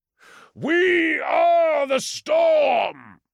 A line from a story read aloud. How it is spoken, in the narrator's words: he roared